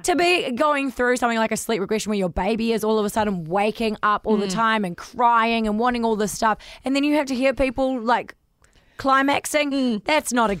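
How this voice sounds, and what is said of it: Hoarse, tired, fading voice. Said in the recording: “I'm losing my voice because I'm so freaking tired”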